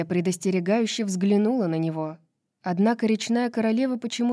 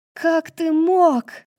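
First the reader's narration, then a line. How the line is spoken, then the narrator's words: Screaming. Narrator (Russian): завопила она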